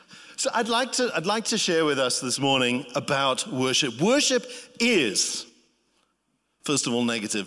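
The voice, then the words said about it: Speaks with a noticeable accent. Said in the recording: “I like your accent ... I really like your accent ... did my accent get in the way”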